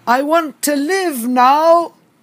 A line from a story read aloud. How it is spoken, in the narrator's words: I paused for a while, and then I shouted out